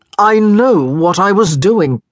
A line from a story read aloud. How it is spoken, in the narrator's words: snapped